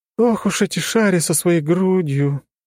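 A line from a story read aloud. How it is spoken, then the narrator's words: Sighed. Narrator (Russian): Вздохнула она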